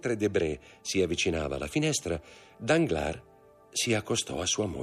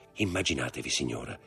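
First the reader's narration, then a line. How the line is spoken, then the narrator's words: Low voice. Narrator (Italian): disse a bassa voce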